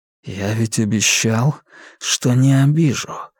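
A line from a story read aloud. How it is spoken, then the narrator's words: Insinuating whisper in ear. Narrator (Russian): вкрадчиво прошептал ей на ухо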